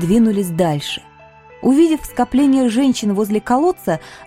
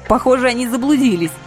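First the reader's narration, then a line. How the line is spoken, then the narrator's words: Snorting remark. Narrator (Russian): хмыкнула я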